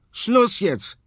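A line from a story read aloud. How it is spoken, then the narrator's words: Irritated shout. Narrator (German): schreit Tobias genervt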